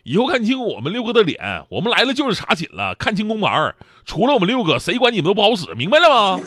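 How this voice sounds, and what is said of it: Put-on Northeastern Chinese accent. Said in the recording (Chinese): “东东北口音嘛”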